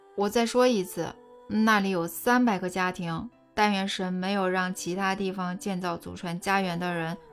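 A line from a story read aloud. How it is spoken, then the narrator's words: Sarcastic. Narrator (Chinese): 我语带讽刺地说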